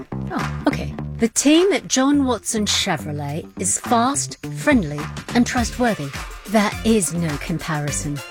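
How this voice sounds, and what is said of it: Put-on English accent. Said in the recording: “That customer didn't have an English accent.”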